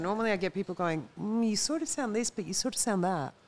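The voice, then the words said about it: Australian accent. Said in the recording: “You have a nice Australian accent.”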